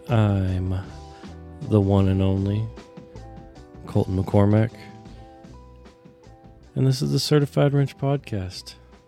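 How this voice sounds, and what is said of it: Sick-sounding, not-normal voice. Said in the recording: “As you can hear in my sexy voice, I'm not fully back to normal yet. COVID has been strong for 3 weeks now ... I've just got this stupid cough.”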